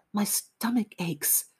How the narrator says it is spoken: he whispered to me

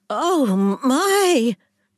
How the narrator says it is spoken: Jean squealed

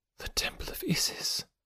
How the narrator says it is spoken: whispered, half to herself

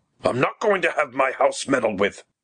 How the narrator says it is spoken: he snapped

